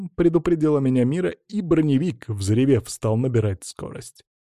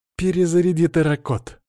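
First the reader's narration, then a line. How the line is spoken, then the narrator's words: Bloodthirsty command. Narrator (Russian): кровожадным тоном, предвкушающим насилием и смерть, приказала блондинка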